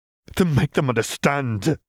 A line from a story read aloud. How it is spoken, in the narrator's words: Caitlin begged